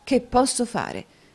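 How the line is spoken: Irritated embarrassed exclamation. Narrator (Italian): esclamò Newman grattandosi in testa con un'aria di grande irritazione e imbarazzo

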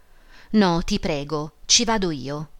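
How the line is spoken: Deliberately stubborn exclamation. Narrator (Italian): Emma esclamò con un tono di voluta caparbietà

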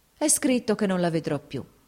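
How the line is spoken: Sighing. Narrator (Italian): disse sospirando

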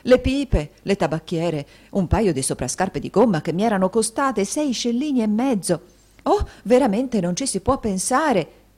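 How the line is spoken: Matrons shouting together. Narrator (Italian): gridarono le matrone

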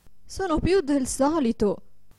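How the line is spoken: Desperate woman's exclamation. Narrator (Italian): esclamava disperata la povera signora

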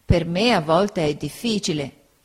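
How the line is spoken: Plain. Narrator (Italian): rispose Uriah

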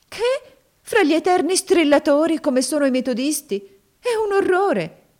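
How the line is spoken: Exclamation. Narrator (Italian): esclamò Maria

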